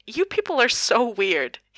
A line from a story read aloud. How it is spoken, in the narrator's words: he says between two laughs